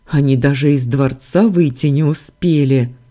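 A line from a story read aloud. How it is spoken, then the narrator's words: Young prince snorting. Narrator (Russian): фыркнул младший принц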